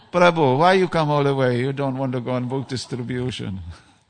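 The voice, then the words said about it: Put-on Italian accent. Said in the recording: “I'm putting on the Italian accent now.”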